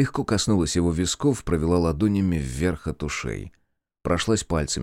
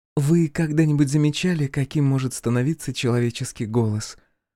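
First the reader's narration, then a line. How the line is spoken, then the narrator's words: Soft question. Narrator (Russian): мягко спросила Ада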